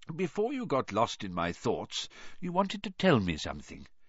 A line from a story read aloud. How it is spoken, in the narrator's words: said Dumbledore quietly